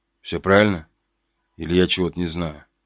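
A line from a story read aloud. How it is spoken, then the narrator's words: Barely audible question. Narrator (Russian): еле слышно тут же спросил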